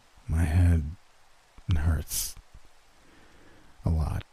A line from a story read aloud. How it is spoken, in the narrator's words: murmured